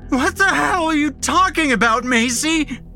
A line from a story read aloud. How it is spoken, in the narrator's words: Max is screaming